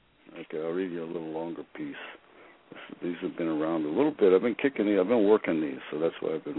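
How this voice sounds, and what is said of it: Usual voice. Nothing is said of it.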